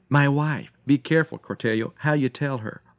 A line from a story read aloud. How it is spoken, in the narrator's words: McKinley, gasping for air, remembering his precious Ida, cried